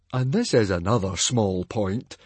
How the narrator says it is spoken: Fishlegs grumbled

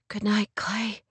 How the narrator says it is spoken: she finally whispered

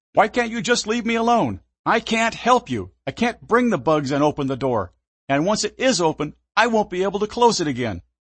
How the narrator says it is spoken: Without warning or any premeditation, I leaped from the seat and yelled

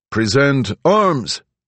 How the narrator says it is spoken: the leader called out from the runway

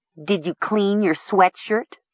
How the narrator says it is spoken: Mara asked in a derisive tone of voice

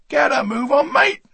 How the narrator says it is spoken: the butcher yelled

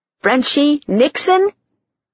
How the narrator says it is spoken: My voice rose an octave or two

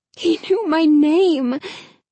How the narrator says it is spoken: Hannah said breathlessly

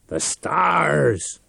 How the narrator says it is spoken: Reich cried

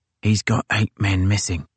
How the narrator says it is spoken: Lane whispered to his captain

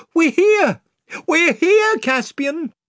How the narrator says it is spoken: cried Lucy and Edmund together

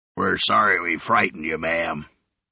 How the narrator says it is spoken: the leader of the group said gruffly

